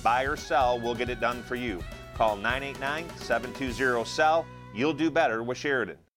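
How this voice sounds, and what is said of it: Sportscaster-style announcer voice imitation. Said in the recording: “was that your Jim Nance imitation? ... My weak imitation, yes. ... Oh, that was good.”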